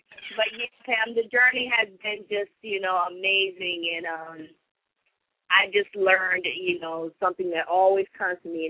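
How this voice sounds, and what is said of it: Caribbean and Charleston Geechee accent. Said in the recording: “You do too. ... It come out, you know, on both ends, from the Caribbean side of the family to the Charleston Geechee side of the family.”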